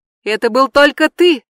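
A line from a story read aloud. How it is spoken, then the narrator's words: Shout. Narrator (Russian): закричала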